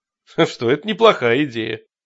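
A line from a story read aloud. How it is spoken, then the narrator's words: Restrained laugh. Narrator (Russian): Джад сдержанно засмеялся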